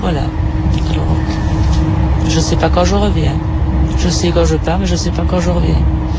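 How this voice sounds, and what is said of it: Belgian French accent. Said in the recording (French): “Mon accent est belge. Je suis belge. ... Ça s'entend.”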